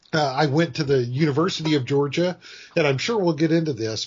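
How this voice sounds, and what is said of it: Georgia US Southern accent. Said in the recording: “Folks can probably tell by my accent as we go on that I am a native Georgian.”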